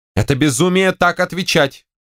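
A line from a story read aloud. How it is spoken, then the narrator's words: Shouting woman. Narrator (Russian): крикнула генеральша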